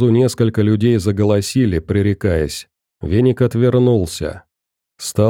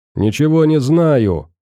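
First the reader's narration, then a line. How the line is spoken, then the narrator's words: Man shouting back. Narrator (Russian): орал ей в ответ мужской голос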